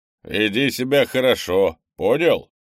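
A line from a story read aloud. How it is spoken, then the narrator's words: Grumbling. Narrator (Russian): проворчал Крис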